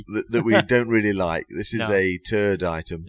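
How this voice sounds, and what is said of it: Mocks another speaker's accent. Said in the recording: “I'm taking the mickey out of your accent.”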